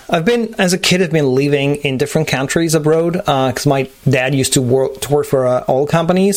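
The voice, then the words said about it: Blended French and American accent. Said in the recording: “your accent's like a really nice blend of kind of French and American”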